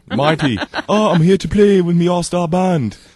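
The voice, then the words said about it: Poor put-on British accent. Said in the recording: “somebody that does a British accent ... Ringo Starr ... I'm terrible”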